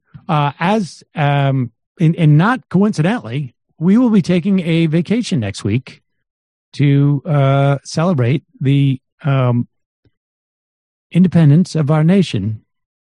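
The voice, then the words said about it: Tired, strained voice. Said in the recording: “My voice again. ... My voice is starting to get to get a little tired.”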